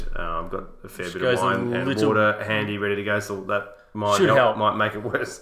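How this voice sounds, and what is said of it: Congested voice from a cold. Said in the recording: “good luck to my voice tonight as well. I've got a cold. Apologies for the sound in my head. It sounds terrible.”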